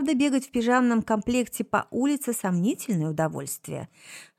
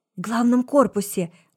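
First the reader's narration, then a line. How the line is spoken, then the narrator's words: Reverent breathless exclamation. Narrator (Russian): благовейно выдохнула Тише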